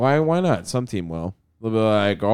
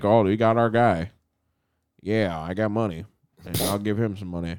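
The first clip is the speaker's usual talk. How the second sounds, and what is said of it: Imitates another person's voice. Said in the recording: “That was my Jerry Jones impression.”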